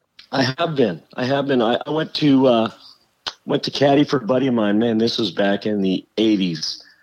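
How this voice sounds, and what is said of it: Voice in poor condition. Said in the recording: “my voice is not doing good”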